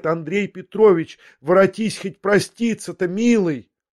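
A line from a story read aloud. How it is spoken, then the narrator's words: Terrified sudden cry. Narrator (Russian): Смертельно испуганная, вдруг закричала ему вслед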